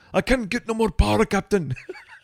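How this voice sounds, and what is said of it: Scottish-accented imitation of Scotty. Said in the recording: “I just went into Scotty from Star Trek a little bit there.”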